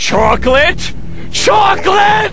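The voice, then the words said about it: Yelling loudly. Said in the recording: “stop yelling”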